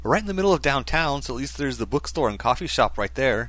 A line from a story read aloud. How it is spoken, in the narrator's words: she quickly added